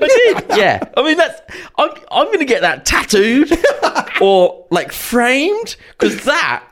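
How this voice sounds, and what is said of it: Usual voice. Nothing is said of it.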